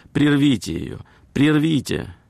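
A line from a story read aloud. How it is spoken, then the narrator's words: Woman's exclamation. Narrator (Russian): одна дама воскликнула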